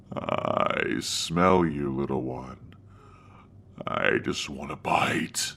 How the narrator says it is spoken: saying in a deep, demonic tone

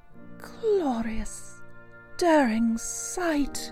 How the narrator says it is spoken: murmured Toad

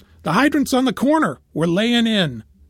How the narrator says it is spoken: The captain yells

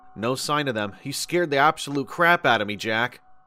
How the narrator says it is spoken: I sighed

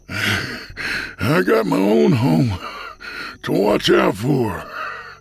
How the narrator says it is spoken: he said between breaths

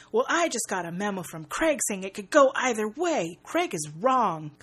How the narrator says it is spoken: His father roars

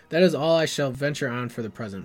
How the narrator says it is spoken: said Gandalf

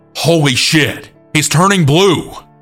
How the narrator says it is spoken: my coworker yelled

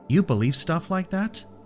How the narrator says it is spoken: I laughed

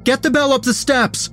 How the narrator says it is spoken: Emmett shouted

